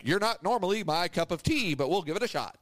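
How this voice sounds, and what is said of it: Radio announcer voice. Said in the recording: “there's one guy that talks in like a radio voice. He talks like this.”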